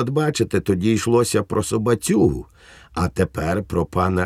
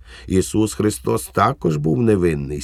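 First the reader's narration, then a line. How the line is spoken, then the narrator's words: Plain. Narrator (Ukrainian): сказав Швейк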